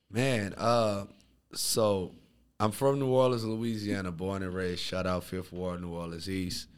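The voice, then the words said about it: Slight New Orleans accent. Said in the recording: “I heard the accent a little bit there... it was there when you said, shout out Fifth Ward... you sound like Manny Fresh”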